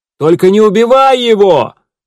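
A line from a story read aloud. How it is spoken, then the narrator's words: Shout after someone. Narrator (Russian): крикнул Гидеон вслед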